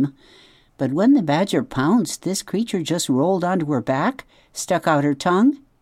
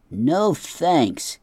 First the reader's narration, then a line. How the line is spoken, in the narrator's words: he grumbled to himself